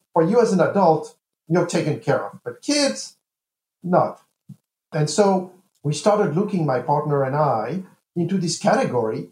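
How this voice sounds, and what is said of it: French-accented English. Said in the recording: “as you may have gotten from my accent, I was not born and raised in the U.S. ... this is not a typical American accent ... I'm French and American, and I grew up in France”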